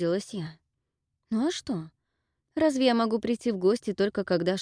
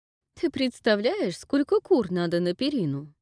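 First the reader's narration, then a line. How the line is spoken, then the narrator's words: Laughing. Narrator (Russian): рассмеялась Глая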